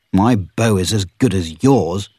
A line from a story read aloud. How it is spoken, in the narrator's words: replied Robin angrily